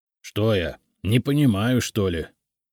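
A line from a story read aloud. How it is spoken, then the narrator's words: Mumbling, slightly offended. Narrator (Russian): с легкой обидой буркнул Игнат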